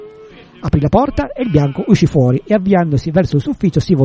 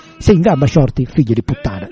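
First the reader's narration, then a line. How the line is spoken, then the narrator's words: Plain. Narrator (Italian): disse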